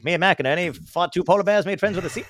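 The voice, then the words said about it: Put-on mid-Atlantic accent. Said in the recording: “The mid-Atlantic accent is probably like one of the ones that I mimic and try to make fun”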